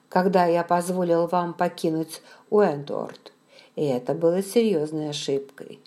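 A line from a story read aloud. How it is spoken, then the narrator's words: Gently added. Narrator (Russian): мягко добавил он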